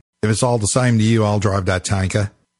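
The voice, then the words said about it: Badly done Australian accent. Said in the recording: “I've completely butchered an Australian accent”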